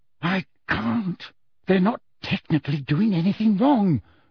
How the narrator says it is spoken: said Hermione through gritted teeth

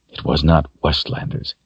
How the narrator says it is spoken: he muttered under his breath

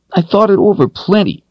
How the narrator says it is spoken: Carl snapped

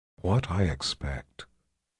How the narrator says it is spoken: Shota said in an intimate whisper

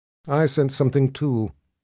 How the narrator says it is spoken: Sister Cecilia murmured

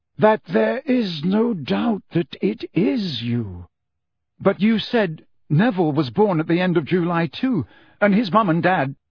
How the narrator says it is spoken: said Dumbledore slowly, looking as though every word cost him a great effort

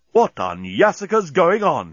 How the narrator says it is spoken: he exclaimed

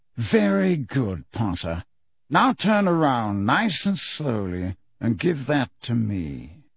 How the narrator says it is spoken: from right behind them, a drawling voice said

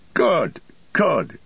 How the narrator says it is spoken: cried Farmer Cotton

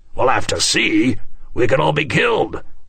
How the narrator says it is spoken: Samson shouted

